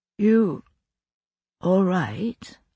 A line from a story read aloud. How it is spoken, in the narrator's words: I murmured, thick-tongued with drowsiness